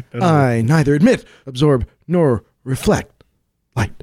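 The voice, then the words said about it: Bad William Shatner impression. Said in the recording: “that's a bad Shatner”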